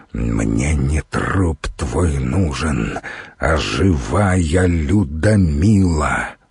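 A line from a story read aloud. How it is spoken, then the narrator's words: Hissed through teeth. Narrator (Russian): процедил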